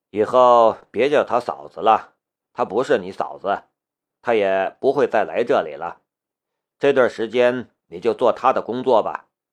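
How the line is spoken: Sighing. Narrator (Chinese): 夏雷叹了一口气

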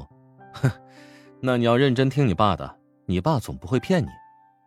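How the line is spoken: Smiling. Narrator (Chinese): 乔治笑着说

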